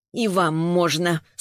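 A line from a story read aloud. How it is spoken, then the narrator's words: Curt, through teeth. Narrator (Russian): сквозь зубы бросила Саша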